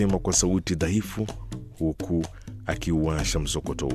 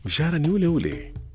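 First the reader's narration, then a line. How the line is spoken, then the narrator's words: Mocking repetition. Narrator (Swahili): Petero alirudia maneno yangu kwa dhihaka na kaongeza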